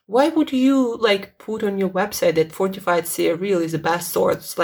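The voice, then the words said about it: Strained, failing voice. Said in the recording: “my voice is giving up on me”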